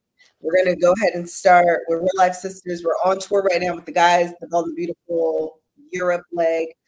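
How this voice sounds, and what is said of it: Congested, stopped-up nasal voice. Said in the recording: “I am sick ... my voice sounds, stopped up. It's because it is.”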